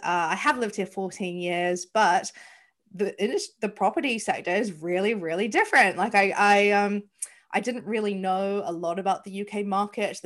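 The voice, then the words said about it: New Zealand accent. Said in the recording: “As you can probably hear from my accent, I am not from the UK. I am from New Zealand.”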